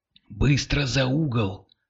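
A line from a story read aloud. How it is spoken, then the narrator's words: Whisper. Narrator (Russian): шепнул Кирилл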